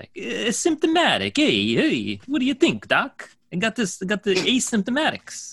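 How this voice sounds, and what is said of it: Italian New Jersey accent. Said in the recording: “Accent. ... Italians up there in Jersey”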